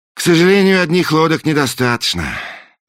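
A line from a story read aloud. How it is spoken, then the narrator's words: Sighing. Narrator (Russian): вздохнул принц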